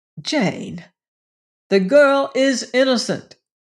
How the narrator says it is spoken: he cried

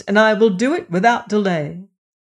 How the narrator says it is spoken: cried Old Pipes

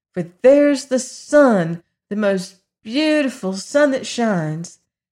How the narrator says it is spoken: cried Dorothy

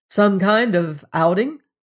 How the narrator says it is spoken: He laughed

